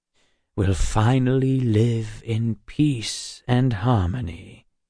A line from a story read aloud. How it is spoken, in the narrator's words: he said, his voice smooth and reassuring